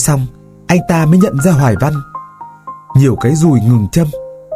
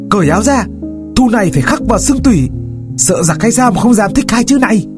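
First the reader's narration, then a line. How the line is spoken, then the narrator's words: Fierce shout. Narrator (Vietnamese): quắc mắt một cách dữ tợn, thét bảo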